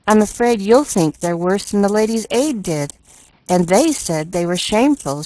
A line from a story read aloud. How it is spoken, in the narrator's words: she sighed